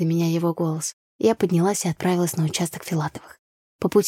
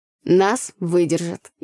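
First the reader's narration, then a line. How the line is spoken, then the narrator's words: Sincere laughter. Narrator (Russian): искренне рассмеялся Андрей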